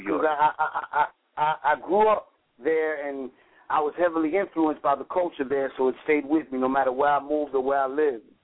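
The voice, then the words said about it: Strong New York accent. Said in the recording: “You got that strong New York accent”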